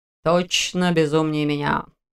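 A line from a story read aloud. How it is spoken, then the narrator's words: Man's grumble. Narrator (Russian): пробурчал мужчина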